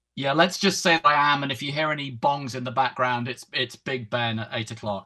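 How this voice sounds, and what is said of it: London English accent. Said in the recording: “I'm in London, which explains the accent”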